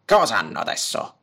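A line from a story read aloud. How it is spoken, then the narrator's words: Grumbling. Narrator (Italian): brontolò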